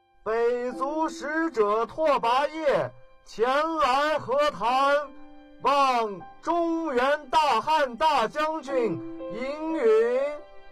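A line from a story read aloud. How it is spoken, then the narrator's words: Loud formal proclamation. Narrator (Chinese): 那人在汉军军营前高喊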